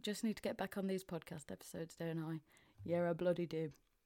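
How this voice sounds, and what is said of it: Mansfield northern English accent. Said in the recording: “I'm sounding a bit more Mansfield because I've been back up north ... the southerners haven't softened my accent anymore”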